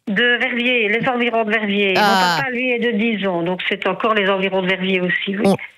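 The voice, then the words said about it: Slight regional accent. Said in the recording (French): “On l'entend au petit accent qu'on a.”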